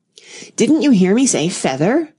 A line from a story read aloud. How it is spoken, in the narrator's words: the sheep cried angrily